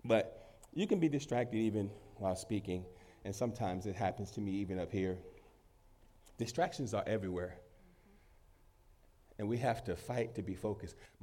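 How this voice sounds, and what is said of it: Deeper voice than usual. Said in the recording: “My voice sounds deeper this morning ... I just heard how my voice sounds. I don't have my high-pitched voice. And so I'm like, Lord, I got a cold”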